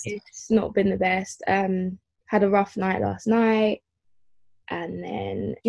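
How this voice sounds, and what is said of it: Tearful, crying voice. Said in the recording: “You can hear it in my voice. I'm like crying a little bit, or I have been crying quite a lot. ... I thought I could hear it in your voice ... you might hear a few tears or sniffles”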